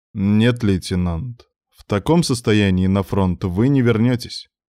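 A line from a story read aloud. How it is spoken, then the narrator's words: Calm retort, middle-aged man. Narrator (Russian): спокойно парировал возмущение Михаила председатель комиссии, 40-летний военный врач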